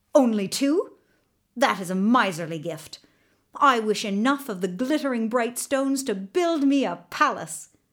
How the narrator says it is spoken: the young king, being not yet quite as wise as he might be, snapped

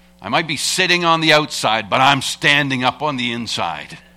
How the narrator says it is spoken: he retorted and snapped back at her

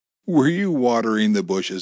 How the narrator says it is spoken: Amy asked with a giggle

